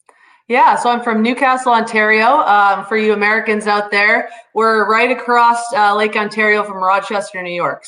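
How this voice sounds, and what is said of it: Faint Canadian accent. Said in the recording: “You shed that Canadian accent a little bit, but it's still there.”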